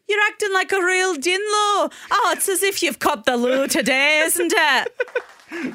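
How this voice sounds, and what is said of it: Put-on Portsmouth English accent. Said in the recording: “in your best Portsmouth UK accent ... That's pretty good.”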